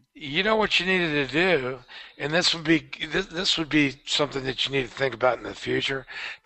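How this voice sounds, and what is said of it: Hoarse voice. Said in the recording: “Usually you sound pretty hoarse. ... you know what I hate about being hoarse?”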